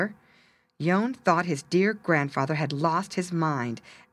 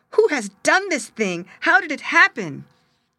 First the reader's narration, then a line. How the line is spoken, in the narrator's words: they cried bitterly